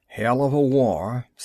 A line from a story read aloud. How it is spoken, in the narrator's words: said Sergeant Coffey bitterly